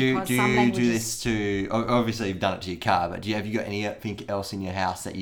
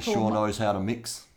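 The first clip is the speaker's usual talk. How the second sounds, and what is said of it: Put-on bogan Australian voice. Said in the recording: “I'm putting on a bogany voice. ... It's like I'm merging into the chicken lady character.”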